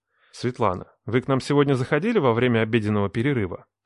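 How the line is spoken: Ingratiating question. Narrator (Russian): вкрадчиво спросил

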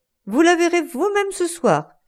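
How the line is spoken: Shouted. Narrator (French): cria-t-il

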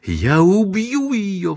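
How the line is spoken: Shrill shriek. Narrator (Russian): взвизгнула Эйлин

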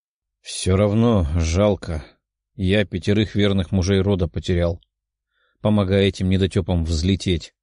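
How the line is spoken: Sighing man. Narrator (Russian): вздохнул мужчина

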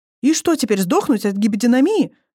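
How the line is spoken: Snapped. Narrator (Russian): огрызнулась Алиса

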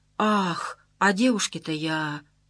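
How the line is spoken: Mumbling. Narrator (Russian): Остановился Иван Андреевич, забормотал что-то вроде

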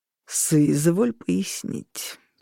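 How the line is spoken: Through gritted teeth. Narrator (Russian): процедил Августин

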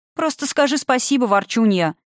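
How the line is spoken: Playful shout. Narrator (Russian): шутливо прикрикнула на нее Заня

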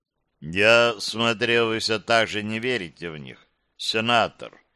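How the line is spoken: Calm voice. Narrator (Russian): ответил он спокойным голосом

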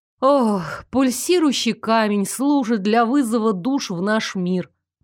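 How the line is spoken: Sighing, lecturing. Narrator (Russian): вздохнув, принялась читать я мини-лекцию

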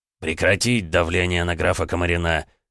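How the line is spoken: Growled, lordly. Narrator (Russian): рыкнул владыка

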